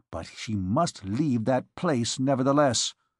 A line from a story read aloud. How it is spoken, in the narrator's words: he murmured